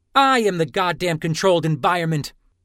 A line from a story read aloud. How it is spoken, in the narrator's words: Delle snapped